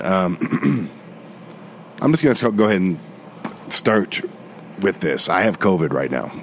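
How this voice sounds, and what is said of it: Voice sounds a little off. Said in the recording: “my voice is a little off at the moment ... it'll be back to being crappy again”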